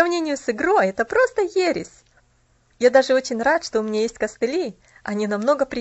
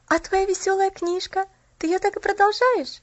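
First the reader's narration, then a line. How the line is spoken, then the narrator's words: Slightly trembling question. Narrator (Russian): спросила Поллианна слегка дрожащим голосом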